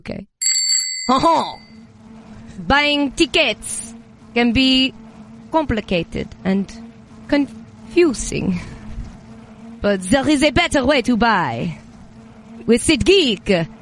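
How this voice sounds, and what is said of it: Fake French accent, slightly breathless. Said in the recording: “you're French ... So I'm a little bit out of breath, and I'm French.”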